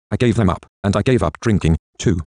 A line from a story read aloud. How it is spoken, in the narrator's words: Georgie says fiercely